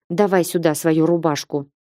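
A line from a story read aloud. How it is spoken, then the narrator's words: Gruff mutter. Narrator (Russian): буркнула я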